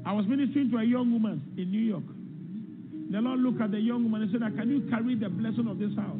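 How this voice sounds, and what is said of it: Strong accent, hard to understand. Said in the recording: “He's a little hard to understand, but we'll try to get through the accent.”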